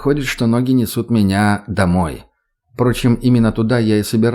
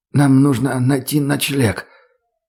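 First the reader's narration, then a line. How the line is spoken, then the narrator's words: Hoarse voice. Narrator (Russian): хриплым голосом произнесла Ольга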